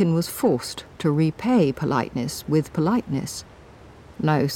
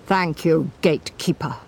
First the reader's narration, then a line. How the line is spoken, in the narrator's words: he said icily